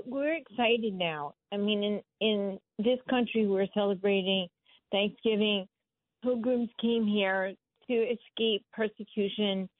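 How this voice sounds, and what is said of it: Strained, failing voice. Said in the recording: “my voice is going so if it goes i apologize”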